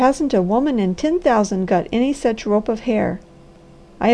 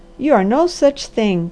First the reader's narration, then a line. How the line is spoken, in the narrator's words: cried the Harvester hotly